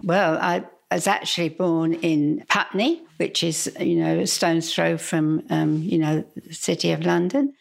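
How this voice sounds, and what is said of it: English Cockney accent. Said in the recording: “that accent of yours, that's not from around here, is it? ... I'm from England. ... I really am a Cockney.”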